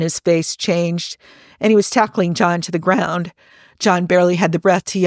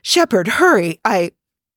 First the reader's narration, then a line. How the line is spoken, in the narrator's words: Rodney was grabbing him and saying breathlessly